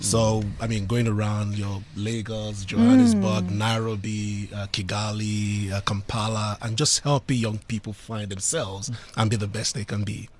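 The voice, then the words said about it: Sexy accent. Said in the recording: “Isn't that a sexy accent?”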